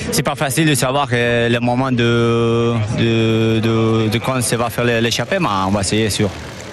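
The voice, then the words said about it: French spoken with Spanish accent. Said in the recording (French): “avec l'accent espagnol, évidemment, ça a tout son charme”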